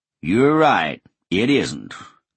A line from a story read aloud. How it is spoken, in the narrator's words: Colonel Sanders intoned